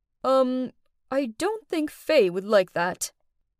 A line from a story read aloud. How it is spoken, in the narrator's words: he hesitantly answered